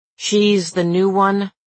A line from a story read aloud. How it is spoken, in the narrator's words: Fix said, his voice gone suddenly sharp, like Cousins was an idiot